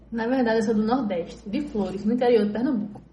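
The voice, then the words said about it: Northeastern Brazilian accent. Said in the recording (Portuguese): “Que sotaque diferente... Isso é sotaque do Norte”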